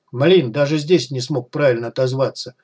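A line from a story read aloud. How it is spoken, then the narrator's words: Grumbling. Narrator (Russian): проворчал Костя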